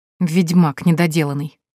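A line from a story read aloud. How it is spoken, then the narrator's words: Grumbling. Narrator (Russian): проворчала я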